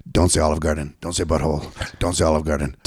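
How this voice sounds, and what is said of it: Imitates another person's voice. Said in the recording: “this is my impression of Brian's inner monologue”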